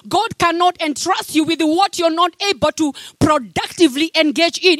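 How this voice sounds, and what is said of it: Speaks with a noticeable accent. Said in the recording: “Am I too fast? ... My accent is okay?”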